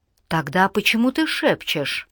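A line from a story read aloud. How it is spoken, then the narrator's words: Quiet question. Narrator (Russian): также негромко спросила Алана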